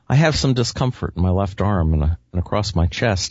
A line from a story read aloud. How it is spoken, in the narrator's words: he said